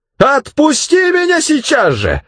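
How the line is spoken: Yelling. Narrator (Russian): заорала дымка

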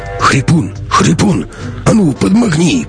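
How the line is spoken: Hoarse croak. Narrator (Russian): прохрипел Сильвер

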